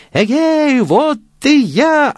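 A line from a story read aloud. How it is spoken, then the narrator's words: Shouting again. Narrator (Russian): опять закричал Ганс Чурбан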